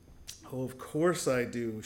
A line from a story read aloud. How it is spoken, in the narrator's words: she said as she chuckled